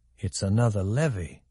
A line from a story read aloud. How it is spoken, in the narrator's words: he thought quietly